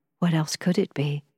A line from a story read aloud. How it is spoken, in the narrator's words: I answered